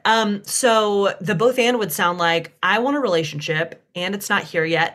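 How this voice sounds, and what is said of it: Southern US accent. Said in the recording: “you've got me in my Southern accent now”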